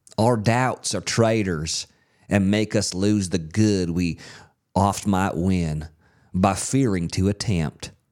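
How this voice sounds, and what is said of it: Exaggerated put-on Southern accent. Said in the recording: “Your Southern accent, by the way, is nuts. ... You always start out really strong, yeah. And then it just goes.”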